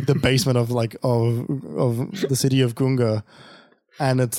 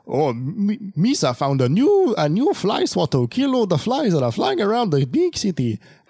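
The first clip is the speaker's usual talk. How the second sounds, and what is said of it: Gungan alien character voice. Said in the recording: “my Gungan impression ... serviceable”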